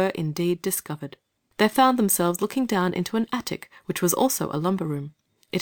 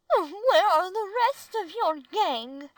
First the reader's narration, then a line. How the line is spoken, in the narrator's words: asked the lady, stopping short in the middle of a scream